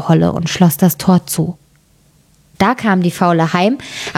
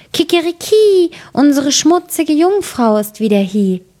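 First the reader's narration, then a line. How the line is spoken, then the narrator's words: Calling out. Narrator (German): rief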